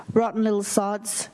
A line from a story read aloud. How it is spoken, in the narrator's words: Nan said